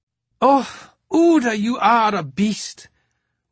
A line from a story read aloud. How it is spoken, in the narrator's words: Rosalie Parker exclaimed